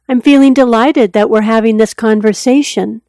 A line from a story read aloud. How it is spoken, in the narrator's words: said, his tone bordering on upbeat